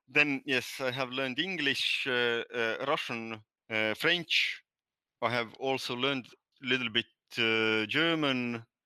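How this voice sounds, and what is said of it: Estonian Nordic-sounding accent. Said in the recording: “My native language is Estonian. That's why I have this weird accent, Nordic accent.”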